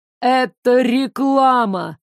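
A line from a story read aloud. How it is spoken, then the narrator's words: Mocking explanation. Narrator (Russian): насмешливо пояснил он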